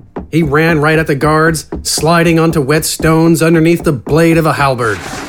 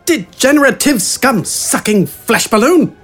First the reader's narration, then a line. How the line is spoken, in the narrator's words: Wither shouted